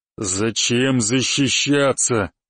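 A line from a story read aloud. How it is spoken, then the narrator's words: Growl. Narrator (Russian): прорычал он моим ртом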